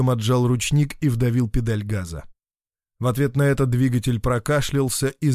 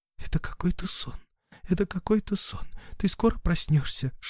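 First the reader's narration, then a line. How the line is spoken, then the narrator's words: Whispering. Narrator (Russian): шептала Рита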